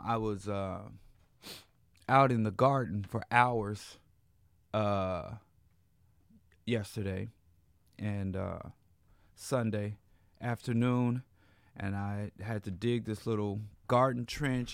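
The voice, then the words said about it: Hoarse, strained voice. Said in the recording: “hear it in my voice. I, I feel like I'm, I'm, losing my voice.”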